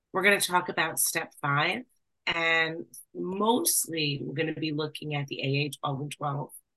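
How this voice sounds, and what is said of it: Raspy voice from a cold. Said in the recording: “raspy voice, I have a little bit of a cold,”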